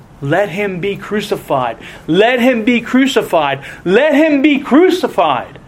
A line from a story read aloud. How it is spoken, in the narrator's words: The people just simply cried out all the more